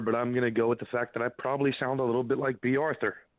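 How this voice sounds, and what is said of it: Slightly hoarse, raspy voice. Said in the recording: “you got a little bit of sexy voice going on ... when you got the laryngitis, and you're a little bit hoarse ... that little bit of a rasp in your throat”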